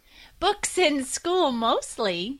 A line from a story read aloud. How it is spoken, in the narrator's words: giggled